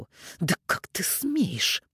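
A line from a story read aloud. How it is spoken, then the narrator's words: Hiss. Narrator (Russian): прошипела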